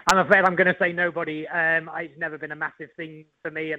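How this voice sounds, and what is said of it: English accent. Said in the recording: “that English accent”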